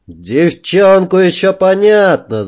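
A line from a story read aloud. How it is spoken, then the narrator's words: Distant yell. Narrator (Russian): заорал кто-то с носа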